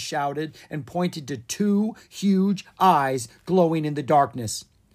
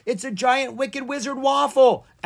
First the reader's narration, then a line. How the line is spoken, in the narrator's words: Aaah screamed